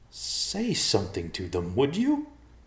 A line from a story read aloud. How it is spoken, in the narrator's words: the short man pleaded